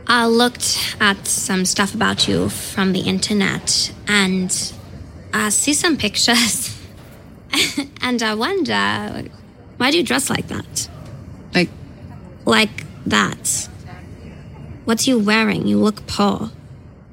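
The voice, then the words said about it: Fake German heiress accent. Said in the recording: “that is a fake German heiress accent”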